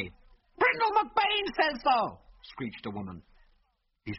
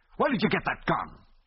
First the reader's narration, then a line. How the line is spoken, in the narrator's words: asked angrily